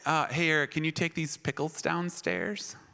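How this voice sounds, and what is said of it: Imitates mother in laid-back rapper voice. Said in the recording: “I don't know why my mom sounds like that ... She sounded like Snoop Dogg ... My mom was Snoop Dogg ... I'll just do the voice.”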